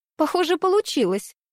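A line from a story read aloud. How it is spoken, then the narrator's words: Speech after laughing. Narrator (Russian): отсмеявшись, сказала Алиса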